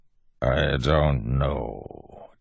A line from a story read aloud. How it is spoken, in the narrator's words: Tensun said, voice even more a growl than before